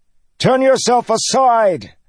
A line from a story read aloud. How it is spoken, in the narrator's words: Kaladin shouted into the churning winds